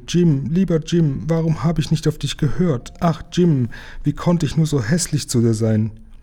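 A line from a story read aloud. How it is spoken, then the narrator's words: Sobbing, stammering. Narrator (German): schluchzte Lisi auf und stammelte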